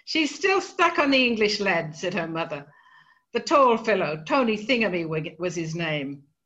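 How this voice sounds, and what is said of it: Australian accent. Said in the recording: “I have no Irish accent, so I can't do this in the proper Irish accent, but it comes through, I think, even in an Australian accent.”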